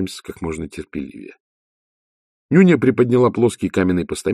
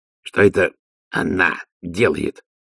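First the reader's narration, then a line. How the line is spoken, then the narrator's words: Forced out with effort. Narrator (Russian): выдавил из себя Ди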